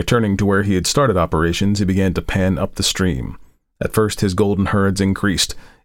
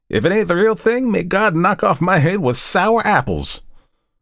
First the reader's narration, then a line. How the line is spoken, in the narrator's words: exclaiming jubilantly